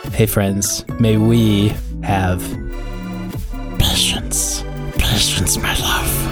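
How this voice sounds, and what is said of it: Smeagol character voice. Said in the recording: “my best Smeagol impression”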